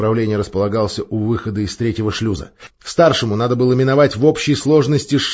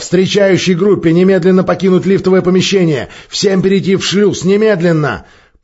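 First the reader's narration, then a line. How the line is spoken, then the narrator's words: Shouting. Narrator (Russian): закричал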